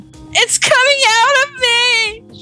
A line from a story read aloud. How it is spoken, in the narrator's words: She cried to him